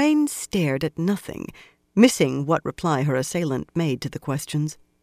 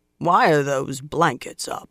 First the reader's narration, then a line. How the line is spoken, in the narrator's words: a sour voice demanded gruffly